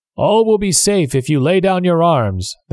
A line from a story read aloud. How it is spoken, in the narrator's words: the captain shouted